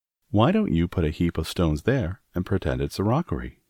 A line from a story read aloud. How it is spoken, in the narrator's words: he said